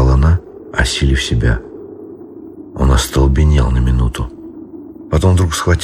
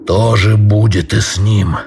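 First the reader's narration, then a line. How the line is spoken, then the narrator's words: Snarling, shaking like beast. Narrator (Russian): прорычал, трясясь и ощетинясь, как зверь, готовый скакнуть на врага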